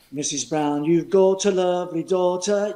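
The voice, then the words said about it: Sung line in English accent. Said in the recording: “You could hear that English accent.”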